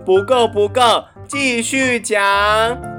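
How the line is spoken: Loud. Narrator (Chinese): 贝蒂大声地说

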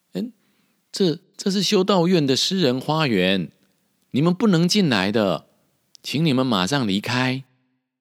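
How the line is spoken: Surprised exclamation. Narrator (Chinese): 他惊讶的叫道

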